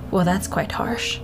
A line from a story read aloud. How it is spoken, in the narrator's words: Dracul scoffed and said something under his breath